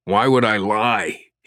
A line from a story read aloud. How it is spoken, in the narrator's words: he grunted, fearing his arm was about to snap